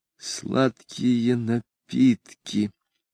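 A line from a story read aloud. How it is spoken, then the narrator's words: Man reading softly. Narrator (Russian): прочел он вполголоса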